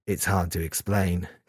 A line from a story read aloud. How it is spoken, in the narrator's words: Kazuya said quietly